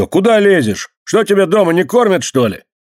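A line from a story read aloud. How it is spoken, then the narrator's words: Angry shout, older man. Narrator (Russian): старший из них сердито закричал на нее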